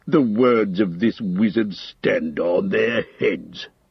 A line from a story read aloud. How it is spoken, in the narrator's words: he growled